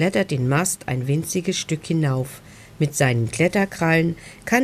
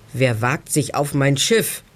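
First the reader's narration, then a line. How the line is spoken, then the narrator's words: Deep roar. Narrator (German): brüllt eine tiefe Stimme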